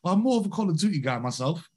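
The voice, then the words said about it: Put-on British accent. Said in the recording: “pardon my British accent”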